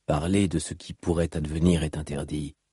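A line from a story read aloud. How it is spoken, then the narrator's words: Plain. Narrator (French): répondit la voix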